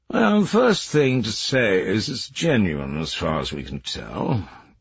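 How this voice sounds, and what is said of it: Friendly upper-class English drawl. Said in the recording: “He spoke in a friendly, Etonian drawl”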